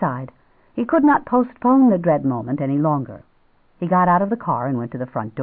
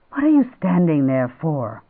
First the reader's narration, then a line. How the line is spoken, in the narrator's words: he said irritably